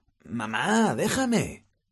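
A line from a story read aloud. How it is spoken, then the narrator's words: Exclaimed. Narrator (Spanish): exclamó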